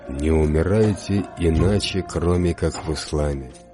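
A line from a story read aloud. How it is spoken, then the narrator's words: Stern instruction. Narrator (Russian): Якуб, алейхиссалям, строго наказал им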